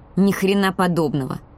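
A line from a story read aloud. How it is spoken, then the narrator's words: Angry. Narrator (Russian): сказала я зло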